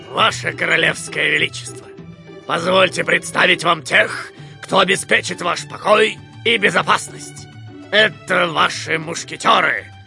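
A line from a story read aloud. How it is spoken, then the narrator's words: Deep, feigned respect. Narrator (Russian): Пробасил с наигранным уважением капитан Пит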